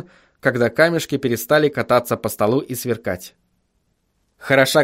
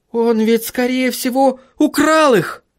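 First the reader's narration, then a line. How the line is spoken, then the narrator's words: Shouting. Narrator (Russian): закричала Сахариса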